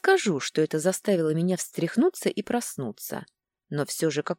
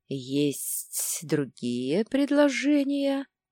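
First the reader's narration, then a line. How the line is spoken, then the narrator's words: Mocking hiss. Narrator (Russian): Насмешливо прошипел наш горе-проводник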